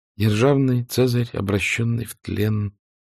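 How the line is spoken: Sad smiling mutter. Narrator (Russian): пробормотала Мелани с грустной улыбкой

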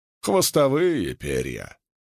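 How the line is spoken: Grumbling. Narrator (Russian): ворчала

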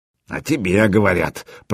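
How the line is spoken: Grumbling bear cub. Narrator (Russian): проворчал медвежонок

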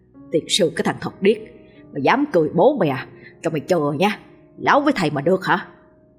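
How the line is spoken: Smug muttering. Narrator (Vietnamese): với vẻ mặt đắc chí, miệng lẩm bẩm

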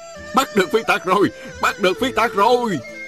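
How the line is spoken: Crowd of constables cheering. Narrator (Vietnamese): một đám bồ khoái không ngớt reo hò

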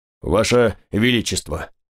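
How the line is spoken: Brisk rumbling voice. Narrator (Russian): проговорил он бодро ракочущим голосом

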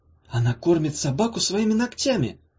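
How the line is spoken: Horrified gasp. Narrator (Russian): В ужасе выдохнула Ирка

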